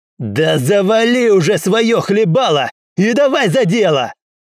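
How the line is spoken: Yelling. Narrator (Russian): заорал Уилл

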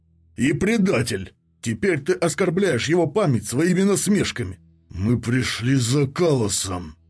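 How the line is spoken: Growled again. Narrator (Russian): снова прорычал первый легионер

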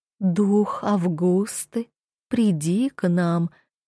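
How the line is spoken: Mournful repeated chant. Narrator (Russian): трижды повторила заунывным голосом

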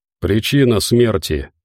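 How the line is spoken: Icy question. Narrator (Russian): наконец спросил генерал ледяным тоном

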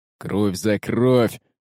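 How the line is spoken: Pirate growling. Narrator (Russian): рычал второй помощник пиратского капитана

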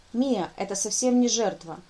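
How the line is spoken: Sharp. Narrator (Russian): резко сказал Дангур

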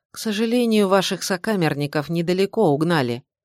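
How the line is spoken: Grim. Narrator (Russian): мрачно сказал Александр

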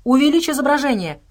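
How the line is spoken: Shouted. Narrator (Russian): крикнул Джеффри

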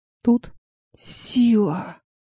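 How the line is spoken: Sing-song whisper. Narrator (Russian): прошептал нараспев Клеверин

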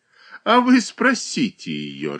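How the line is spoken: Laughing. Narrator (Russian): рассмеялась Зубова

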